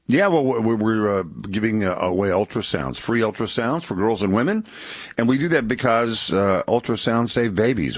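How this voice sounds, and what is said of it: Polished radio announcer voice. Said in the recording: “he's got that radio voice, man”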